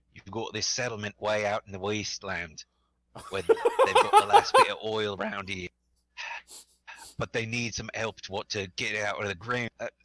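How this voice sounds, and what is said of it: Put-on Australian accent. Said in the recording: “apologies for the accent I'm about to do ... I'm sorry, Australia.”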